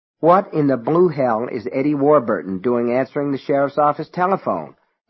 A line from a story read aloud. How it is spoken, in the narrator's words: Alan asked irritably